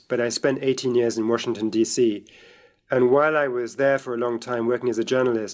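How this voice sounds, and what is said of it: British accent. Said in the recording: “I grew up in Britain, as you can tell from my voice,”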